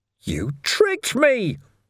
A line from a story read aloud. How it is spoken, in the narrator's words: Ferret wailed